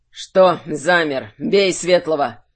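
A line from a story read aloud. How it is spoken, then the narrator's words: Barked. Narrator (Russian): рявкнул Тверен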